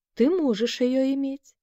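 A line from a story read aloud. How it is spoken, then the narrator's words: Sudden complete calm. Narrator (Russian): вдруг совершенно спокойно сообщил ему Саша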